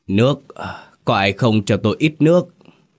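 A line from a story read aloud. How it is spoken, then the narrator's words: Soft, hoarse calling. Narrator (Vietnamese): Tấn khẽ khẽ gọi giọng khàn khàn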